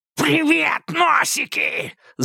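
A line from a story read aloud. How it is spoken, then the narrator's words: Repulsive screech. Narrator (Russian): завопил отвратительный голос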